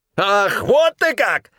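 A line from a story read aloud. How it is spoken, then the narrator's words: Shrill squeal. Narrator (Russian): взвизгнул тот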